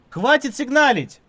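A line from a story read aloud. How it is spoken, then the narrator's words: Shouting. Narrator (Russian): крикнул Немо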